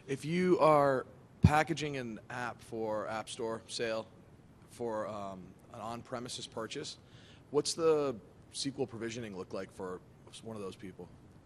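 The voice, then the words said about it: Hoarse, strained voice. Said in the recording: “Sorry, I'm losing my voice.”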